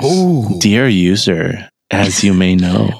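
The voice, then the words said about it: Put-on sexy voice. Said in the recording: “Sexy voice? ... That's his sexy voice. ... This is my sexy voice.”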